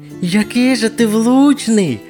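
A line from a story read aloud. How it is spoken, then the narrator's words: Admiring squeak. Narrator (Ukrainian): захоплено пропищала кишмишка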